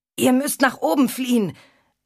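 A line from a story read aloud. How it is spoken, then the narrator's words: Called out. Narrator (German): rief der Maltitzer dem Markgrafen zu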